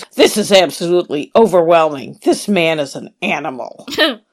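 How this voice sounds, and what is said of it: Imitates another person's voice. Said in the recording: “my David Crook impersonation?”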